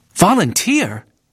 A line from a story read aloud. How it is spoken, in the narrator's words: Bramwell exclaimed